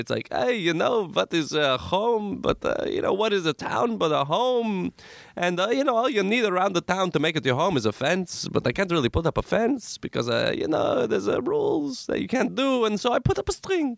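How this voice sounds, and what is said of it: Put-on Hasidic Jewish accent. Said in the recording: “my prejudicial, like, Hasidic Jewish accent”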